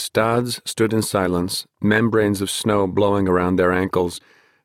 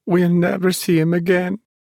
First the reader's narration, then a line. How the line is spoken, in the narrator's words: she sobbed